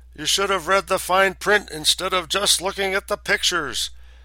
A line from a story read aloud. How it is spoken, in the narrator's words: I bellowed back